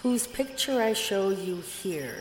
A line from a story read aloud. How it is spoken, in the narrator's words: said the queen